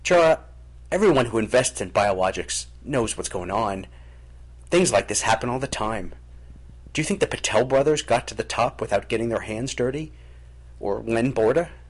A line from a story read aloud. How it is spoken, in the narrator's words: Jarrah snorted angrily